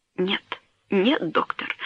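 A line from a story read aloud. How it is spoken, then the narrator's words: Sobbing. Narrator (Russian): сказал он, рыдая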